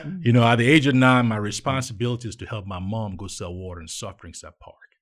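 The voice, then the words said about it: Nigerian accent. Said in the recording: “You can tell from my accent, I'm not from Charlotte originally... I'm from Nigeria.”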